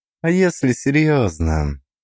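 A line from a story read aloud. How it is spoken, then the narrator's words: Sighing. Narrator (Russian): Он вздохнул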